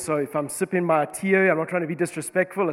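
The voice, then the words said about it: Congested, stuffy-nosed voice. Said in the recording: “This is not supposed to be my sexy radio voice. This is just a clogged nose that I've got this morning.”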